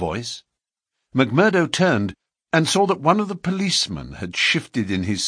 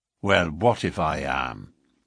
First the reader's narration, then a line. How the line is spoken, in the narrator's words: McMurdo answered in a surly voice